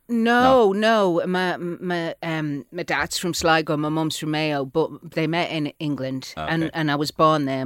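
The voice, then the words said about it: Manchester accent. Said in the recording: “Is that a Manchester accent you have”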